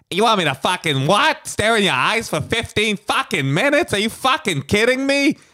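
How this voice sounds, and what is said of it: Exaggerated Boston-guy impression. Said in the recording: “like a fucking Boston guy ... your Bill Burr impression”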